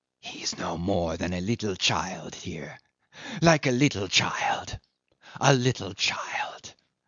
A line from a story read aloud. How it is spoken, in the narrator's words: He whispered forcibly